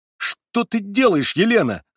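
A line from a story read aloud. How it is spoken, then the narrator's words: Alarmed shout. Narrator (Russian): закричал я, уверенный, что вижу перед собой сумасшедшую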